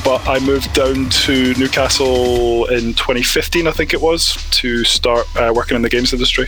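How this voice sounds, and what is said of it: Mixed Scottish accent. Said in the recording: “I am Scottish, even though my accent is a bit all over the place”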